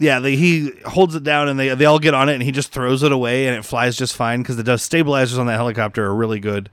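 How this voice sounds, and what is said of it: Usual voice. Nothing is said of it.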